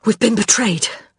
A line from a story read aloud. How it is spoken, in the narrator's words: Baldwin gasped